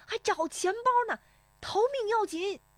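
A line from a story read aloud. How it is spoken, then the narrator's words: Shouting while running. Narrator (Chinese): 石丽华……边奔边喊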